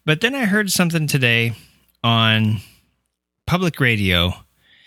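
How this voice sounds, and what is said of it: Usual voice. Nothing is said of it.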